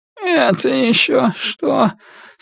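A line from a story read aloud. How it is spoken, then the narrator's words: Sleepy annoyed grumble. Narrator (Russian): сонно проворчала она, недовольная тем, что ее разбудили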